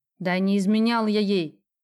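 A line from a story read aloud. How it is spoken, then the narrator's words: Snapping. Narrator (Russian): огрызнулся Мишка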